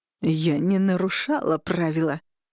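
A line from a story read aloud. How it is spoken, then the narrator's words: Through gritted teeth. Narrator (Russian): процедила Виктория сквозь зубы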